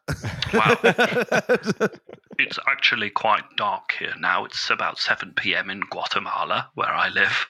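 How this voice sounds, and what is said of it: British-sounding transatlantic twang. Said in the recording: “I thought you were a British bushel farmer ... I was having trouble placing the accent ... it is a bit of a transatlantic twang”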